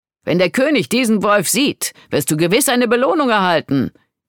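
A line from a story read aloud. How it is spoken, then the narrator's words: Leader calling out. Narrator (German): rief einer der Anführer aus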